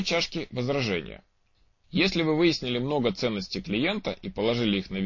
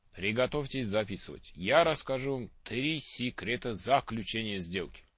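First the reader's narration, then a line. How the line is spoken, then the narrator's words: Mysterious voice. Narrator (Russian): говорил он ученикам загадочным голосом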